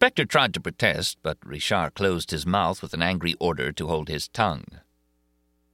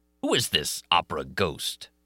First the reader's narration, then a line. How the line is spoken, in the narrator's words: he snarled